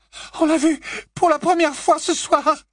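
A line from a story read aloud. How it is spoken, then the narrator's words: Sobbing. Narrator (French): sanglota Hermione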